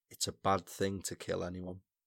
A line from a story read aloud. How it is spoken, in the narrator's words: muttered to Walter